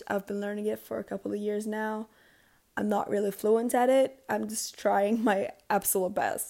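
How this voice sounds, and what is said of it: Non-native English accent, sick voice. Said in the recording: “if it sounds a little bit weird because of my accent and my voice, it's just that I am kind of sick right now, and also English is not my first language... I'm not native in English”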